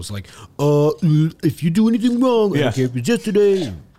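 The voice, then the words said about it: Imitates another person's voice. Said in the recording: “Dave Chappelle said it best ... I don't know why I'm doing that impression”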